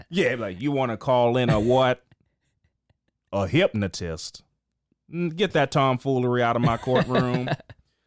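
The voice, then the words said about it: Imitates another person's voice. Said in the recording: “I think I just nailed that Judge Joe Brown impression.”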